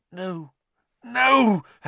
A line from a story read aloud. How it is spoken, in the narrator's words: Harry gasped